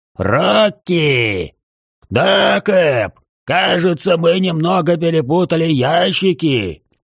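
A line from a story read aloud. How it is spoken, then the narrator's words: Distant bellow from boat. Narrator (Russian): Заорал из баркаса мой знакомый гробовщик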